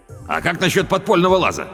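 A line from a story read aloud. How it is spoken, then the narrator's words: Shouting. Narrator (Russian): крикнул Педро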